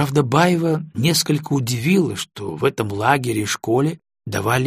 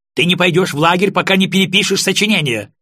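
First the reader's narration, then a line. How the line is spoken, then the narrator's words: Yelling, nearly shrieking. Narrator (Russian): орала Алиса, почти срываясь на виск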